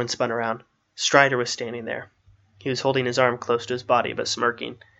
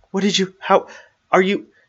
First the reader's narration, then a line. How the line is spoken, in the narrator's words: stammered